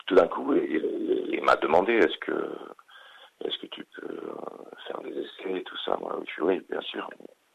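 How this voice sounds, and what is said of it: Slight Swedish accent speaking French. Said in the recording (French): “il y a un tout petit accent, mais on a du mal à cerner d'où ça vient. Vous êtes suédois, c'est ça? ... Ouais, je suis suédois”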